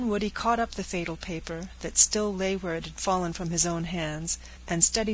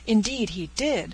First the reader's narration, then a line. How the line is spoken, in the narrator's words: cried Miss Peyton